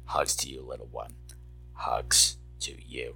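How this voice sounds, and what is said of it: Creepy voice. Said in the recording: “I got my creepy voice on when I gave you a hug”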